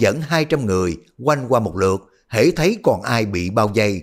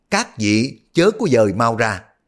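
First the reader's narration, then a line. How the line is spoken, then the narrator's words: Loud man's voice. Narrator (Vietnamese): Ông lớn tiếng nói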